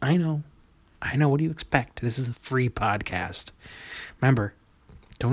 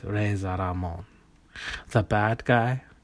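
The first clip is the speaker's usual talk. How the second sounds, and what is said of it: Bad put-on Puerto Rican accent. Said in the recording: “he talked like this... That's not a good accent... It's bad. It's a bad Puerto Rican accent based on... Scarface. Al Pacino Scarface”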